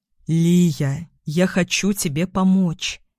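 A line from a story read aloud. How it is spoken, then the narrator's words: Soft, gentle. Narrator (Russian): мягко добавляет Ерошин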